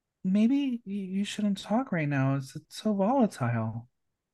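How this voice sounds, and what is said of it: Meek, timid imitated voice. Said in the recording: “in that meek voice ... your impression of the throb zombie”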